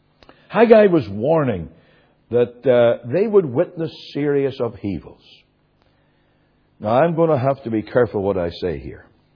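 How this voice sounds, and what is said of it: Ulster Northern Irish accent. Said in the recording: “I am an Ulster man. You probably have gathered that by my accent.”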